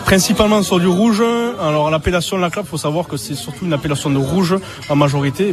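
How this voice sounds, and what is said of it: Regional French accent. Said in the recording (French): “est-ce que je t'ai pas fait rêver avec cet accent-là?”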